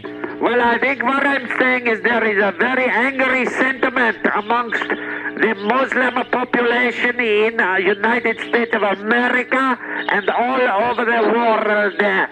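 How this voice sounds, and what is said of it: Heavy foreign accent. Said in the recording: “You do have a heavy accent”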